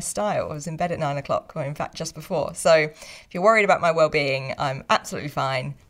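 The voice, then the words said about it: Croaky, tired morning voice. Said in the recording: “if you think my voice sounds weird today ... I've not long been got up ... you think I'm sounding a little croaky ... Just clearly a bit of a tired voice”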